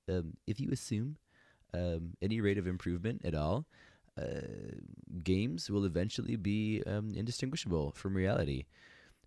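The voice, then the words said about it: Imitates another person's voice. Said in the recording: “my best Elon impression,”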